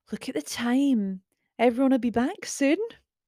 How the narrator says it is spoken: exclaimed

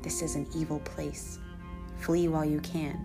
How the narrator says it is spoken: whispered

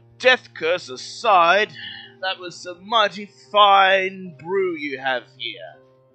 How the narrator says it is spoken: takes a yawn and says

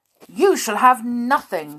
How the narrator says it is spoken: cried Binky

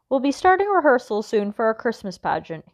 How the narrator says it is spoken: said

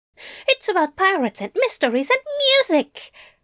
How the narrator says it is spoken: Adam exclaimed, delighted to be asked

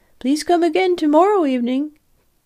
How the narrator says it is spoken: they called out to me

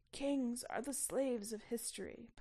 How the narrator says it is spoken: Poniatowski murmured sadly

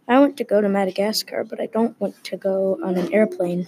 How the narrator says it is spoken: Finn said quietly

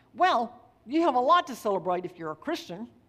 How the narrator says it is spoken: She quickly replied

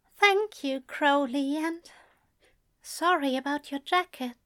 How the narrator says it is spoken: Alistair said quietly

